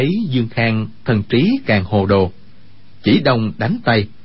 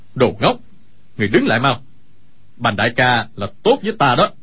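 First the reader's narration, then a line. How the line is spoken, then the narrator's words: Pained shout. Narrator (Vietnamese): Sa Thông Thiên nhịn đau quát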